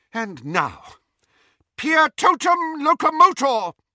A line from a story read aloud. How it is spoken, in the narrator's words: cried Professor McGonagall